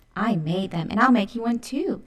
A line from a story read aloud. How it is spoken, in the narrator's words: Alley Cat said excitedly